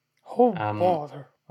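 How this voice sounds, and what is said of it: Cartoon bear character voice. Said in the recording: “I used to be able to do a very good Pooh Bear impression ... I can't.”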